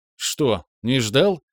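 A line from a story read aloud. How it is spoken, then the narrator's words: Smirking. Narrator (Russian): хмыкнул тот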